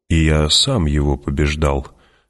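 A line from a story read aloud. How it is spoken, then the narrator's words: Calm. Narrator (Russian): спокойно продолжил Стилгар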